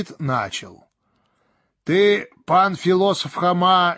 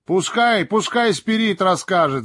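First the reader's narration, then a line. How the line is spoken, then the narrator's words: Crowd shouting. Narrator (Russian): закричала толпа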